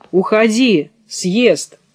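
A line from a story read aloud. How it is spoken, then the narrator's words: Shout. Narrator (Russian): Я ей крикну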